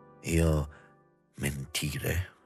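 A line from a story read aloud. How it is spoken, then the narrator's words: Low-voiced question. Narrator (Italian): domandava sottovoce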